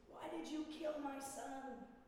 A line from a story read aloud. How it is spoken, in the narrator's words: And one of them screams